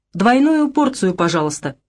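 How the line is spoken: Mimicking command. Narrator (Russian): скомандовал он, подражая Лидии

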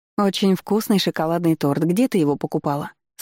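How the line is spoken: Plain. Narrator (Russian): спросила она

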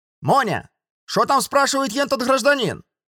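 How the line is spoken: Booming bark. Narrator (Russian): Зычно гаркнула худая тетка

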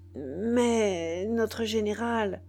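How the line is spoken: Stammered, confused and trembling. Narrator (French): balbutia le nègre, confus et tremblant

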